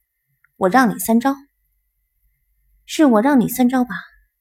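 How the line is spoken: Arrogant voice. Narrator (Chinese): 狂傲的声音响起

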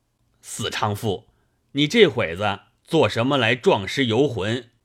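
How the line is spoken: Angry cursing. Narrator (Chinese): 一腔恶怒，骂道

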